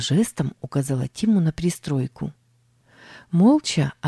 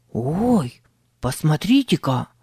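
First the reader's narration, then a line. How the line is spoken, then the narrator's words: Hoarse exclaimed whisper. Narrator (Russian): воскликнул Тим хриплым шепотом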